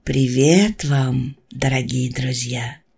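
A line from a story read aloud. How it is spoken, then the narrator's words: Gentle. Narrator (Russian): мягко сказал он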